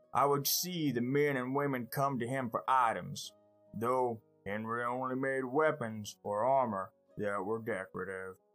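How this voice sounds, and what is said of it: Voicing a character named Atlas. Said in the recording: “my best Atlas impression”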